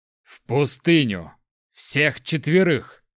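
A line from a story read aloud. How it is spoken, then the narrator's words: Through gritted teeth. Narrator (Russian): сквозь зубы процедил Цек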